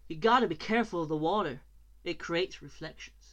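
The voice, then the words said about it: Put-on American accent. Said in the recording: “I've got to do it in American accent”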